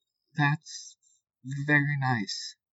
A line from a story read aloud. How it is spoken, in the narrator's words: I said, struggling to keep my voice even